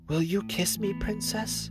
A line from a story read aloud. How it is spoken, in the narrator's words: said he feebly